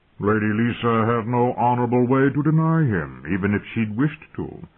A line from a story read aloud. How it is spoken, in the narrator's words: Lord Hunter intoned ponderously